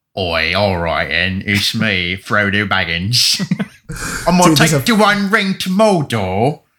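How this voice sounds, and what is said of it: Put-on British accent. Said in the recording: “you get the British accent going.”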